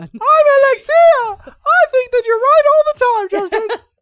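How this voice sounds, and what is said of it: Mocking imitation of co-host's voice. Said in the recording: “I'll just do your voice.”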